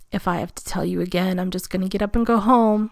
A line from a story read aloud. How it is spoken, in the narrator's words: threatens, voice a growl he almost doesn't recognize